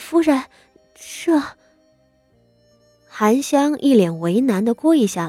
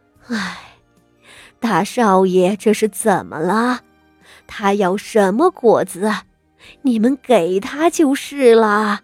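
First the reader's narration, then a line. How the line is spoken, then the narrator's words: Exasperated old woman, sighing question. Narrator (Chinese): 傅老夫人看傅德熙竟没个消停，叹着气左右问道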